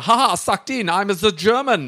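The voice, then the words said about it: Put-on German accent. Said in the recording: “That was a German accent”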